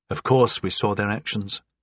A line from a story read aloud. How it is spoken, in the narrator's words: said quietly